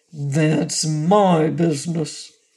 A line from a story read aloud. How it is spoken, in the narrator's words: returned Bilbil in a surly tone